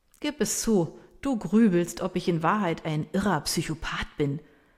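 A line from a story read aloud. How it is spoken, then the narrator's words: Laughing. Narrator (German): sagt er lachend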